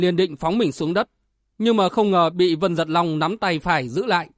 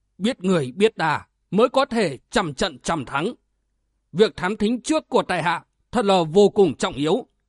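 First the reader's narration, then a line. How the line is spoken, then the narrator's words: Stern voice. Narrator (Vietnamese): Vu Phi Ngô nghiêm giọng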